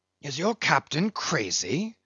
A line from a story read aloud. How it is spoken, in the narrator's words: whispering Fedallah